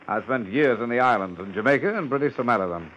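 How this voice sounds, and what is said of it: British accent. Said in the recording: “With a British accent?”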